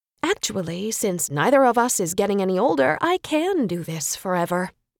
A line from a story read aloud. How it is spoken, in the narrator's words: noted coolly